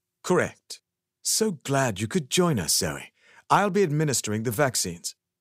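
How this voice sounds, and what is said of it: Charming British accent. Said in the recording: “He speaks in a charming British accent.”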